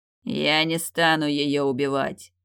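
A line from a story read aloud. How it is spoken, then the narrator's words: Beast's growl. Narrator (Russian): прорычал зверь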